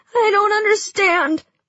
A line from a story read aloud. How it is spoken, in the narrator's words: I cried as I pressed my wet cheek to Mal's